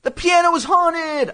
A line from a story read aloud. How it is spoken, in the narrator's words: I shouted